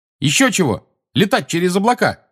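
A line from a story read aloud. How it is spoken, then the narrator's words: Angry shout. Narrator (Russian): сердито крикнула ему Тонкс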